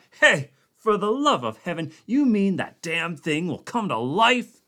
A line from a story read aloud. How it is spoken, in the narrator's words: Conant yelled